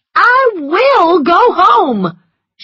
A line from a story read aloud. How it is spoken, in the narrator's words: she cried, tears running down her cheeks